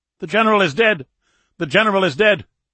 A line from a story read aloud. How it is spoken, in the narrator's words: the sergeant shouted